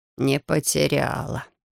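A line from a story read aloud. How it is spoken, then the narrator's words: Satisfied mutter. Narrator (Russian): удовлетворенно буркнул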